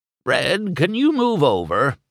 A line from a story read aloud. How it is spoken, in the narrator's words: old Lizzie croaked